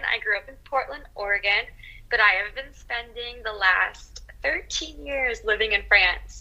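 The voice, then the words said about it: American accent. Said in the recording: “as you can tell by my accent, I'm American”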